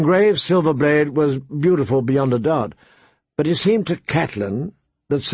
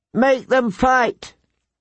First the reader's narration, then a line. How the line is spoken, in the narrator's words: Lord Robert called out